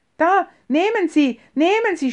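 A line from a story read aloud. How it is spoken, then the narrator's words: Shouting. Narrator (German): schrie er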